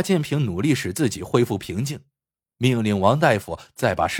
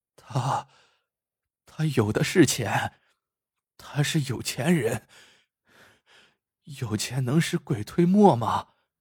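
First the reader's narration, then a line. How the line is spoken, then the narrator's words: Muttering. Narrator (Chinese): 王大夫喃喃道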